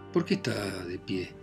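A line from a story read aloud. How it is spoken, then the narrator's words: Plain. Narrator (Spanish): dijo él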